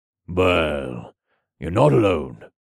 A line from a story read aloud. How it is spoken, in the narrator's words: Jax said in his gravelly voice